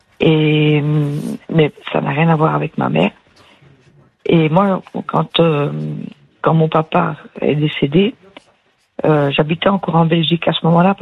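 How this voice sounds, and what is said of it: Slight accent in French. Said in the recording (French): “J'entendais un petit accent. ... Ah oui, je ne l'ai pas perdu.”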